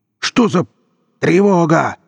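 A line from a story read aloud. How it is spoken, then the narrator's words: Shouting. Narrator (Russian): заорал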